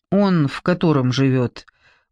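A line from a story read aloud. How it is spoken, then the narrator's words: Asked gloomily. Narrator (Russian): мрачно глядя на бараки, спросила Эстер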